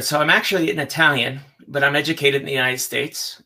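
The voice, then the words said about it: American accent. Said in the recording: “you sound American.”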